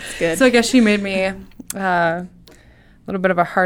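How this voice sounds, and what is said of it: Usual voice. Nothing is said of it.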